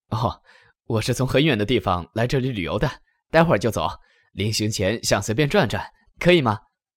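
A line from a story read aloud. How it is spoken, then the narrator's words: Bright, cheerful voice. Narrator (Chinese): 这个小伙儿 声音爽朗的回答道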